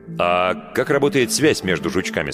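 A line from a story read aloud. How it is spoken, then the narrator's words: Plain. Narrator (Russian): спросил Альфред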